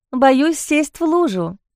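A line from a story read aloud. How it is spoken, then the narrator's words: Cheerful, dismissive. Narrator (Russian): весело отмахнулась она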